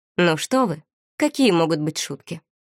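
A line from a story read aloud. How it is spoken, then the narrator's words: Prim, stiff tone. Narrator (Russian): Чопорным тоном произнес Бертран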